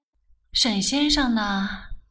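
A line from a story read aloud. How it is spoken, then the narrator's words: Sighing, mildly displeased. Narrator (Chinese): 顾太太虽然对世君这种态度也有些不满，但是究竟是自己女儿的男朋友，她觉得她不能不替女儿辩护，便叹了口气道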